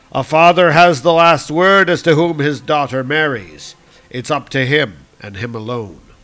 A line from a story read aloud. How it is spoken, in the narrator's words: called out